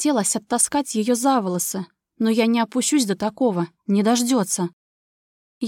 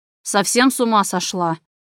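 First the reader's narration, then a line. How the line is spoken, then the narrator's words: Growled. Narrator (Russian): прорычал Влад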